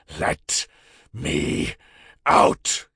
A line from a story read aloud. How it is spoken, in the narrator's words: said, growling with each word